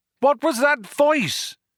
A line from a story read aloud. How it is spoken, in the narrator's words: shouted Arthur